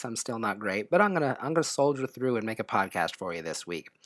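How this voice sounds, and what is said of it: Sick-sounding voice. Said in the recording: “I was sick, and well, as you can probably tell from my voice,”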